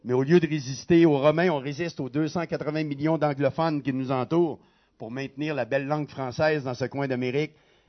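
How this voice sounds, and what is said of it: Québécois French accent. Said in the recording (French): “c'est pas un accent vaudois. Mon épouse et moi, nous venons du Québec”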